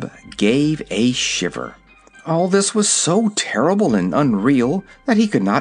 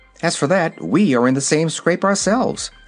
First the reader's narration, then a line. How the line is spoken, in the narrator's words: answered Dorothy, cheerfully